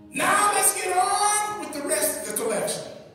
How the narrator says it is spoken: A man shouted

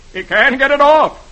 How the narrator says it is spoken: Herb shouts

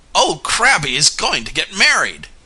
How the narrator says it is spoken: came in a shout

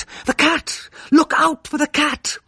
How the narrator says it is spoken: I cried out

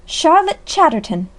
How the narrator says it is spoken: exclaimed Mrs

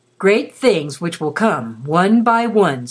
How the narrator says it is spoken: said the king

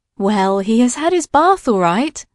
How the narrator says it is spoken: said mother with a laugh

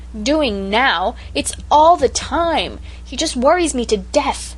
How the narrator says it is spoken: returned Cecily angrily

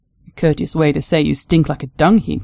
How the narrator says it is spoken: she muttered to herself

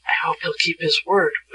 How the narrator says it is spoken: whispered Betsy to Shaggy

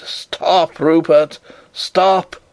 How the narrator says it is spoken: I cried

